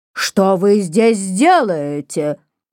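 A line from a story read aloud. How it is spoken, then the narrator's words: Rough shout. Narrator (Russian): закричал он грубым голосом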